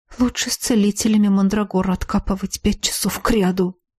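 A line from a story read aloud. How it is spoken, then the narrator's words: Hopeless mutter. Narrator (Russian): также безнадежно пробормотал некромант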